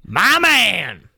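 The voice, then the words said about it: Imitates another person's voice. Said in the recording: “that was my Leo impression”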